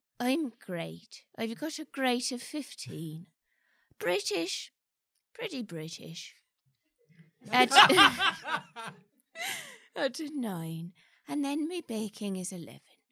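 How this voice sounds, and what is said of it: Faint Irish brogue. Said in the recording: “I do detect like a faint Irish brogue.”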